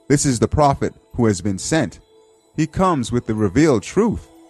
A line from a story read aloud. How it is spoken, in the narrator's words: the idol of the Mazan tribe, who shouted out